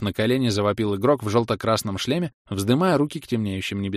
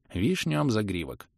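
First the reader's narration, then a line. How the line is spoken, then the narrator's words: Stunned hoarse wheeze. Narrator (Russian): Ошеломленно просипел я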